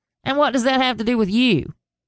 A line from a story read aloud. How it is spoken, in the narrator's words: snapped